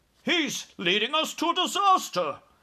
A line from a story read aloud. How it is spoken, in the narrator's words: cried the head of the Air Force